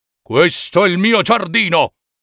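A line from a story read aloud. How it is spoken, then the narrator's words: Giant's terrible roar. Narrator (Italian): del gigante e dalle sue grida terribili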